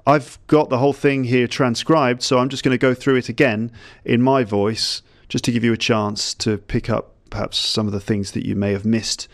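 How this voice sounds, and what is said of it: British English accent. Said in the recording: “my kind of British English accent”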